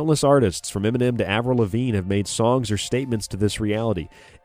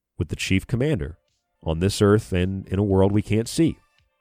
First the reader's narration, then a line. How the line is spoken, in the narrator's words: in a serious tone, replied